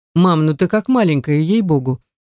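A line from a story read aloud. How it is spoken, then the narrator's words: Insistent, persistent. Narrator (Russian): не унимается мой новоиспеченный родственник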